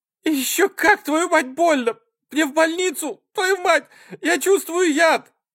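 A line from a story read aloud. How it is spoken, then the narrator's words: Screaming woman. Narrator (Russian): Закричала она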